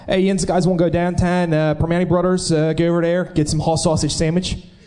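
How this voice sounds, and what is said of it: Put-on Pittsburgh Yinzer accent. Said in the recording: “Yinzer accents being done... are you going to put on an accent for us... I don't talk like a Yinzer normally”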